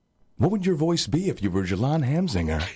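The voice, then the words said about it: Imitates another person's voice. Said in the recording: “my Alon impression”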